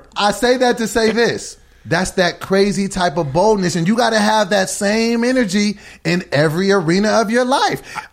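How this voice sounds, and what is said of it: Excited yelling, loud voice. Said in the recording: “Why are you yelling? ... Because I'm excited. ... That's why I'm yelling. ... You are yelling.”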